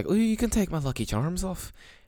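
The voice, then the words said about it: Put-on Irish accent. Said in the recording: “that Irish accent is attractive”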